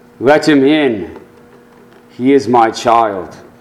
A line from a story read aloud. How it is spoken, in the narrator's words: the voice calmly spoke